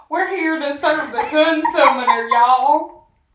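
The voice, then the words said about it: Put-on Southern American accent. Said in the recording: “Southern accent ... now I'm picturing Fedora with a southern accent”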